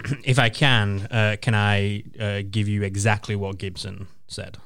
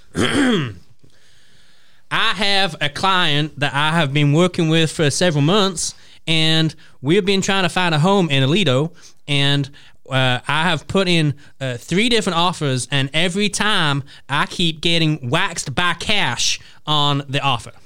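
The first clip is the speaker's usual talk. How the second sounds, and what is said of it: Put-on American accent. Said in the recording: “Are you going to do it in like a Gibson accent? ... I will do it in my finest American accent as ... I ... possibly can.”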